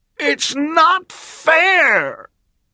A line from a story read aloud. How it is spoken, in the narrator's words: his face turned red, and he screamed at the top of his voice